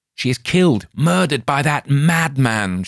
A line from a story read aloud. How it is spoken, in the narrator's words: shouted Lothair